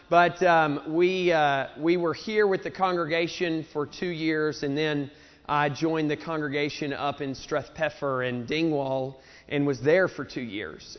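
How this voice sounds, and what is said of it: Southern US accent. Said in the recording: “I still have my southern redneck accent”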